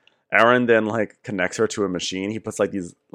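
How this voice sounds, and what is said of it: Usual voice. Nothing is said of it.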